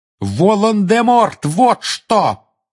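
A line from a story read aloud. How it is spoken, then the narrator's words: Furious shout. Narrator (Russian): яростно крикнул Гарри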